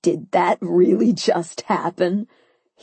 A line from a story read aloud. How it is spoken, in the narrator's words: he asked through his chuckles